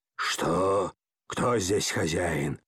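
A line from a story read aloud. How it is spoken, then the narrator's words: Hoarse wheeze. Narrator (Russian): хрипел он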